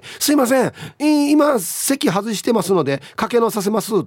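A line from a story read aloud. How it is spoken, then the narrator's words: Explaining. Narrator (Japanese): と説明して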